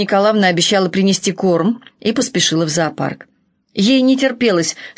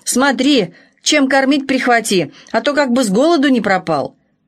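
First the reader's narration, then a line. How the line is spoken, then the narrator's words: Grandmother shouting after someone. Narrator (Russian): бабушка даже выскочила на улицу и крикнула ей вслед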